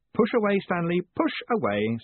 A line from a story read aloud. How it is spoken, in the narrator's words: said Moist cheerfully